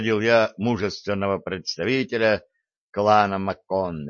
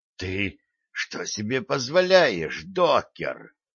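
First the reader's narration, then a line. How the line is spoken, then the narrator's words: Deeply offended hiss. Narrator (Russian): со смертельной обидой в голосе прошипел Грег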